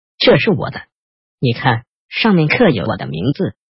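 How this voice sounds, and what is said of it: Hurt, wounded tone. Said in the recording (Chinese): “另外一个人用受伤的语调说”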